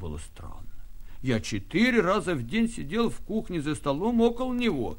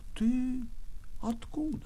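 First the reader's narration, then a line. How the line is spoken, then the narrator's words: Quiet question. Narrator (Russian): спросил негромко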